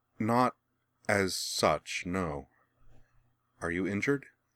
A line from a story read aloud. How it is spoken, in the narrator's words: she replied hesitantly